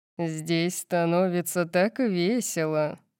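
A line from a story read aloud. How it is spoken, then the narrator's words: Purring, playful. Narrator (Russian): промурлыкал Макс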